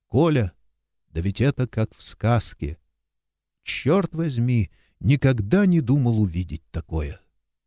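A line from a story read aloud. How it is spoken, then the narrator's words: Whispering. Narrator (Russian): Александр Михайлович прошептал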